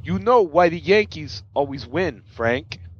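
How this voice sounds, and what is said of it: Imitates another person's voice. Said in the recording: “my best Christopher Walken impersonation ... That's terrible ... That was pretty good”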